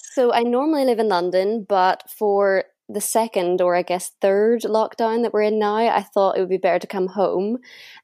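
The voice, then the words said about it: Northern Irish accent. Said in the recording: “people are sometimes a bit surprised by my accent whenever they actually hear me speaking ... home for me is at the north coast of Northern Ireland”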